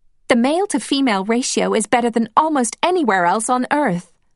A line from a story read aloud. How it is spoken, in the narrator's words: said Peggy, laughing